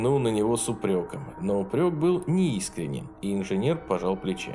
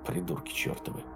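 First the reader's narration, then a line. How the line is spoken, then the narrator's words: Grumbled. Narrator (Russian): буркнул Валентайн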